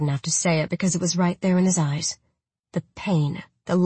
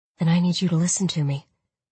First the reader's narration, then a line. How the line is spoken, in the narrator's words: said calmly